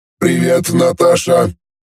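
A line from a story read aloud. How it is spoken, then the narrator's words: Droning robotic voice. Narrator (Russian): прогудел робот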